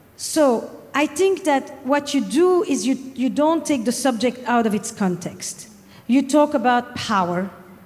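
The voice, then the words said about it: French accent. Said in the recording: “despite the French accent”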